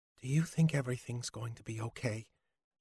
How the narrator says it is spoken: Krista asked him softly

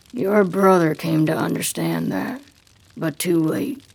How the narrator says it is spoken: says grimly

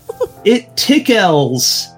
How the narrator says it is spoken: the fish boy exclaimed

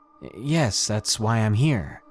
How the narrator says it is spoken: he nervously said

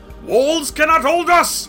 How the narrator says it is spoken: roared his green head

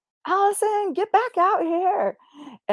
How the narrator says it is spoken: yelling through the door from downstairs

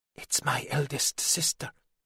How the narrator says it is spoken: the boy whispered back

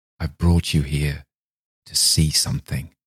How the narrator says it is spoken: whispered hoarsely

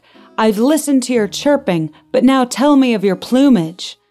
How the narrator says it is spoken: Delbert shouted back

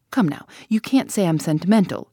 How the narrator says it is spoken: added sharply

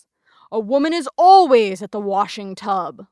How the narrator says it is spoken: Lawson thundered in conclusion

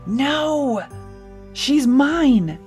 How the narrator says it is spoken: Elena began to yell

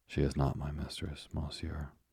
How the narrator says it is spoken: the young sailor said gravely

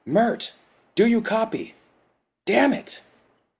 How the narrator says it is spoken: The general yelled

